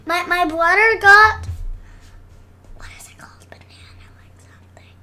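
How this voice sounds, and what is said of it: Whispering. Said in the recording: “you don't have to whisper. People can still hear you.”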